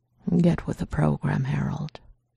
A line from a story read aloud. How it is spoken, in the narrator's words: Reese murmured roughly